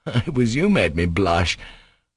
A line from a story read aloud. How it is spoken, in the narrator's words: laughed Alyosha